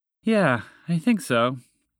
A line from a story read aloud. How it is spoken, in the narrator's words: Dorothy sighed to indicate a job well done